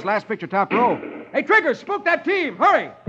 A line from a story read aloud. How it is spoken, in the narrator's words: shooting at the outlaws, yells